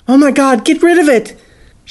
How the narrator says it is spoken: she yelled

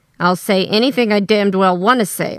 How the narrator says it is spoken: I snarled

